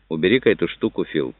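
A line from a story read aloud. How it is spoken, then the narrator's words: Casual everyday tone. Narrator (Russian): произнес он самым будничным тоном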